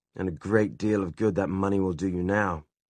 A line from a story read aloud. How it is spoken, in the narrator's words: said Jem, his voice uncharacteristically bitter